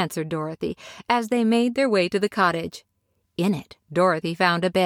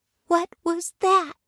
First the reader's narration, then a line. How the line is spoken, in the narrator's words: she asked timidly